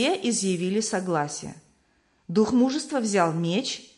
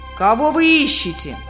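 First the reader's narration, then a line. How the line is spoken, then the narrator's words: Giant shouting. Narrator (Russian): великан закричал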